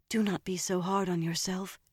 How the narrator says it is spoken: she whispered back

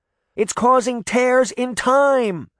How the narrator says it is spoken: she shouted over the noise

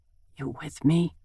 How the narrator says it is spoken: he murmurs

